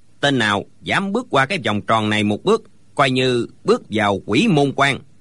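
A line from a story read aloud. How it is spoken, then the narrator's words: Cold. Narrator (Vietnamese): lão ... lạnh lùng nói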